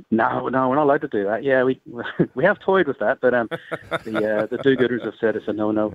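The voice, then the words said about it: Irish accent. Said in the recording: “You sound like you've got an accent ... I'm from Ireland originally. I've been out here 25 years”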